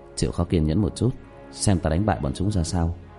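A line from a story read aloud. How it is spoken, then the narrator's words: Soft voice. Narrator (Vietnamese): khẽ giọng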